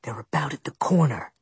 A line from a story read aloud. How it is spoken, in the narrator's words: Ian whispered